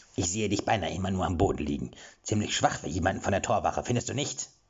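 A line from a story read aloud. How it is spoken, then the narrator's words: Mocking question. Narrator (German): fragte er spöttisch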